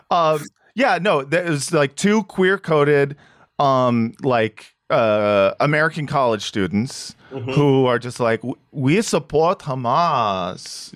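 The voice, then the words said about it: Put-on Israeli accent imitating American. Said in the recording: “my Israeli accent is going to change multiple times throughout. Because I'm trying to do an Israeli accent of them doing an American, queer accent.”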